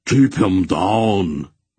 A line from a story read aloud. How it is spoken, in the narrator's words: Barak roared